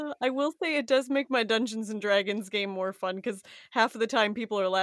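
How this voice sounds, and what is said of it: Usual voice. Nothing is said of it.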